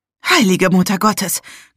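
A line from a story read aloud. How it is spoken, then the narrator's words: Gasping. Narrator (German): keuchte ich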